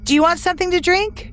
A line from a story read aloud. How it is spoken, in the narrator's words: Elena asked loudly from behind me